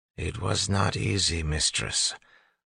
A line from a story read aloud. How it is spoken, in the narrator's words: Orsieur said flatly